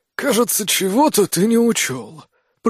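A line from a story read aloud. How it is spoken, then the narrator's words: Hoarse. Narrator (Russian): прохрипел Кемаль Царента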